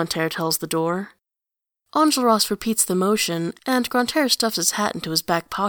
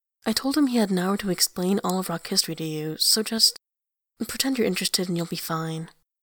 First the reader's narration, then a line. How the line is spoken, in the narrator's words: she says, in an undertone